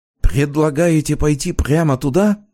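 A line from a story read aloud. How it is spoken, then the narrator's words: Frightened whisper. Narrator (Russian): испуганно зашептал Полиньяк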